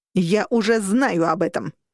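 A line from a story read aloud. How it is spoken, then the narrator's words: Barked. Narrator (Russian): рявкнула она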